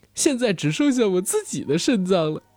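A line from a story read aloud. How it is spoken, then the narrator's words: Sinister boastful laughing speech. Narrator (Chinese): 廷玉 捂着嘴邪笑 炫耀般的说道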